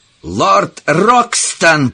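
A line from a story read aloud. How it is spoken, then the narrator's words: Shout. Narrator (Russian): крикнул он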